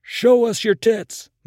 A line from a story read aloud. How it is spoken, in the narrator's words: MacArthur shouted